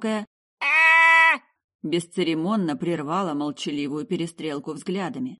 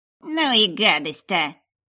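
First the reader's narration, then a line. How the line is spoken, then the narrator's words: Grumbling newcomer. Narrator (Russian): проворчало вновь прибывшее действующее лицо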